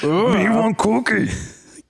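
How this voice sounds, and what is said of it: Cookie Monster character voice. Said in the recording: “Cookie Monster... Do your best impression... You're so much better.”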